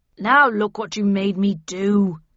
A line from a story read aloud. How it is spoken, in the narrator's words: he growled